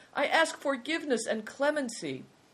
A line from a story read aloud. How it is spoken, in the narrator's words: cried the man